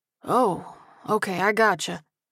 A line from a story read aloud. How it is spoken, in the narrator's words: Mike replied with a sigh of relief